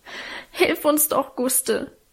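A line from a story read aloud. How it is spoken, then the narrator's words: Sobbing. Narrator (German): schluchzte Alwine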